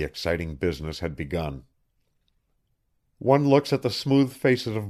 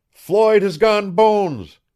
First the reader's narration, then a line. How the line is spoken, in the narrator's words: everywhere someone cried